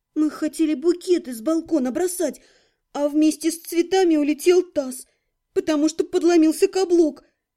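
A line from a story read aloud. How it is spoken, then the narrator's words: Forced out. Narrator (Russian): Выдавила я краткую версию происшедшего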